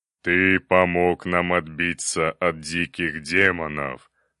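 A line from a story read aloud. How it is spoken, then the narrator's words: Solemn. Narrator (Russian): торжественно начал вождь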